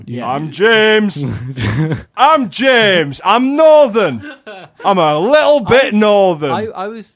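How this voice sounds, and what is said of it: Exaggerated slightly northern English accent. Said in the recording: “I just do a slightly northern accent and repeat who I am”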